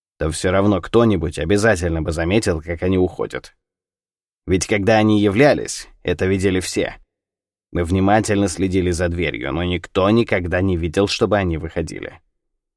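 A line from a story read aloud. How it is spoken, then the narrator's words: Dry reply. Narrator (Russian): сухо ответил Кунсанг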